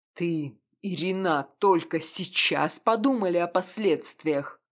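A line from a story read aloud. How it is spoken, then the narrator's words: Snarling angrily. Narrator (Russian): Зло оскалился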